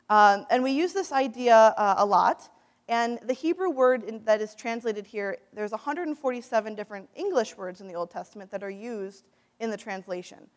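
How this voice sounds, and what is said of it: Midwestern American accent. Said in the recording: “My Midwestern accent sometimes messes that up.”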